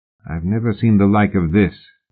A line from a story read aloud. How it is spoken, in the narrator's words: murmured Fraser